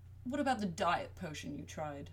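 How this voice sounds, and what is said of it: British accent character voice. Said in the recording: “please forgive me for my British accent. Bob has one, and my brain would itch if I voiced him as an American.”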